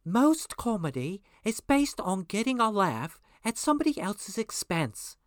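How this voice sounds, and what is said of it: Hermione voice impression. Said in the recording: “I'm going to do my Hermione voice”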